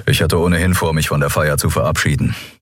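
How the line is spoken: Dry. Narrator (German): sagte Telios trocken

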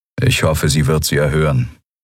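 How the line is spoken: Toneless voice. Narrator (German): sagte Telios mit tonloser Stimme

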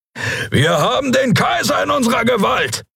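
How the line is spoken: Roaring. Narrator (German): brüllte Keru

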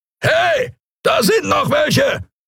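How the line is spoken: Roaring shout. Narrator (German): brüllte eine Skria-Stimme

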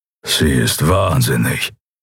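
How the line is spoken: Low grumbling mutter. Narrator (German): brummte der Schattenskrieger

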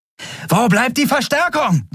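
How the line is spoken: Shouting over noise. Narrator (German): rief über den Lärm

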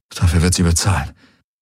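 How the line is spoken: Muttering to herself. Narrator (German): murmelte Garland vor sich hin

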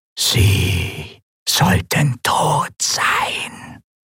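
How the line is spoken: Disembodied whisper. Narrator (German): flüsterte die körperlose Stimme

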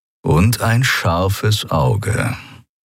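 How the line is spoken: Plain. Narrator (German): sagte er

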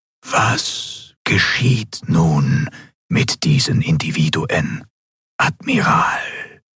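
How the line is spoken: Ghostly telepathic whisper. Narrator (German): die gespenstische Stimme des Gouverneurs wieder direkt in ihrem Verstand flüsterte

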